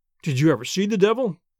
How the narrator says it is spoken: he asked

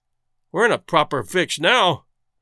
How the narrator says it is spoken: growled Carlier

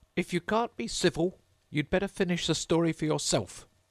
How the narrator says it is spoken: the Dormouse sulkily remarked

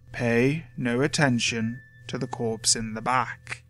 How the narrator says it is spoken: say slowly, his voice colder and harsher

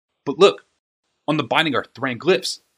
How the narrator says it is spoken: snapped Urza

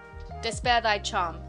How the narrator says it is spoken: said Macduff

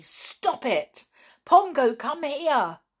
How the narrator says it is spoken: shouted Nobby

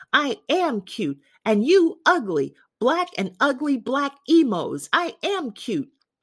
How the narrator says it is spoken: Safe on the other side, she screamed

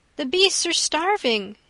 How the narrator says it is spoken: he cried

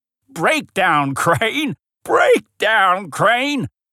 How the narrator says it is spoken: the old mining engine chuckled

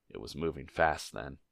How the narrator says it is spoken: muttered Aragorn

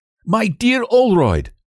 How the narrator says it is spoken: he cried and broke off

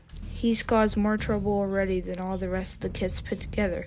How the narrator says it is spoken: he growled

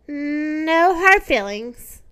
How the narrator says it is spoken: answered the hippopotamus sadly

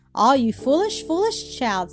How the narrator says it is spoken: said Granny

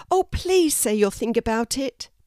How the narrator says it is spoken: pleaded Elsa

